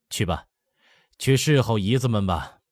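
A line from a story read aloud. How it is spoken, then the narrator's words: Panting laughter. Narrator (Chinese): 白手喘着笑道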